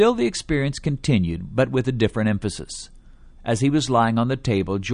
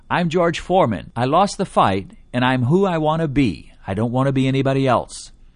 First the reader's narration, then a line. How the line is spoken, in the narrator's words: he became thankful that he wasn't them and cried out